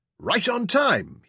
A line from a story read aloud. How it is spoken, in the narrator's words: exclaimed